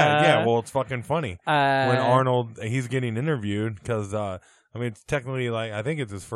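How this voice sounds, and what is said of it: Usual voice. Nothing is said of it.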